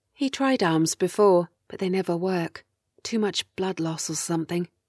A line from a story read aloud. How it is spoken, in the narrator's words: whispers